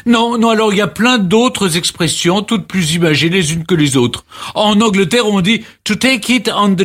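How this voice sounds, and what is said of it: Usual voice. Nothing is said of it.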